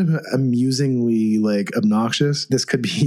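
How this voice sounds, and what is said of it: Usual voice. Nothing is said of it.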